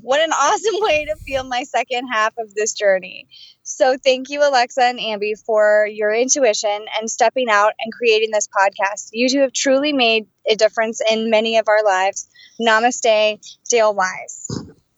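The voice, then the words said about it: Choked-up, emotional voice. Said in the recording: “got choked up halfway through”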